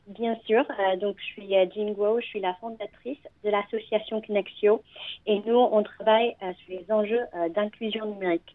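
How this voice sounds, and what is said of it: Slight foreign accent in French. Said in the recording (French): “votre petit accent aussi ... très eh, mignon”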